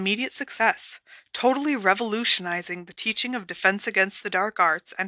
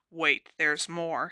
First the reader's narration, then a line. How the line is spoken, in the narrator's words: said Hermione grimly